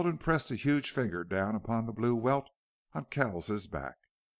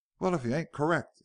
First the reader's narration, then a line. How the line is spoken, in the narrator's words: exclaimed Pierce